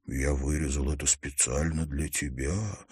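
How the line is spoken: Whispered reply. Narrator (Russian): шепнул в ответ

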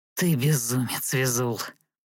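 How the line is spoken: Old man, breathy. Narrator (Russian): выдохнул старик

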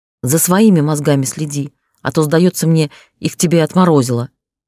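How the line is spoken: Growling. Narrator (Russian): рыкнул я

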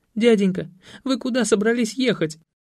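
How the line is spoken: Frightened childish whimpering. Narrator (Russian): Захныкал Веня, мигом превращаясь из наглого подростка в перепуганного детсадовца

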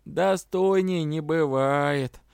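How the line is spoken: Old woman drawling. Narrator (Russian): протянула бабуля

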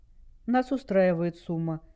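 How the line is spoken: Calm. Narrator (Russian): спокойно ответил Дэйв

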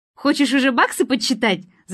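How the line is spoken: Laughing. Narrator (Russian): засмеялась она

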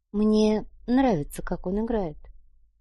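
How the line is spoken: Quiet woman's voice. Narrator (Russian): тихо произнесла женщина

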